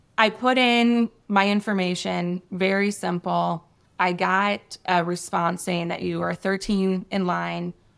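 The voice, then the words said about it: Voice sounding sick, recovering. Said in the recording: “You might be able to tell in my voice, I'm still getting over something.”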